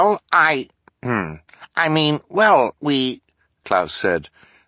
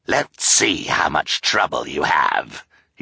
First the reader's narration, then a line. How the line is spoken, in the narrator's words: he snarled